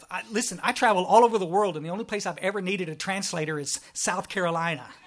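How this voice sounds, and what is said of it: Thick Texas accent. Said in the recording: “I'm from Texas. Y'all probably noticed that right off because of my thick accent”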